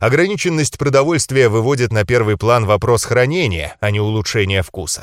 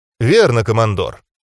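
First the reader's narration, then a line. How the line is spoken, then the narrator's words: Calm. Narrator (Russian): спокойно ответил я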